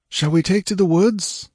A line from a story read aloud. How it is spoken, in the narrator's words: panted Balthus